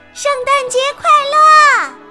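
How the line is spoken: Children shouting loudly. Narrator (Chinese): 孩子们大声喊道

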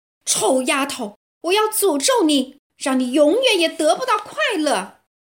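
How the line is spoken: Loud shout. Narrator (Chinese): 公爵大声喊道

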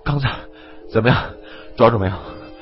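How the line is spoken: Panting. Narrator (Chinese): 张三彪捂住肚子喘气说

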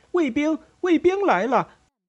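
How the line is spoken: Doctor shouting. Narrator (Chinese): 医师西蒙大叫着

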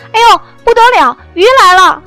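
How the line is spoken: Panicked shouting. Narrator (Chinese): 他慌忙大叫

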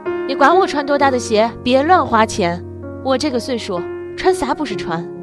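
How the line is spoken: Broken shouting over phone. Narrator (Chinese): 信号不好，电话里他断断续续的喊

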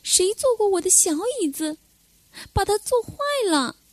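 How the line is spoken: Shrill squeak. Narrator (Chinese): 小熊尖声尖气的叽叽叫

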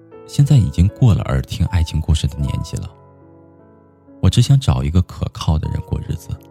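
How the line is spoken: Calm, faint smile. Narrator (Chinese): 九姑娘淡淡的笑了笑，说

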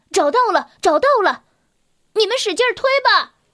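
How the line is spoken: Shouting. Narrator (Chinese): 鲁鲁喊着

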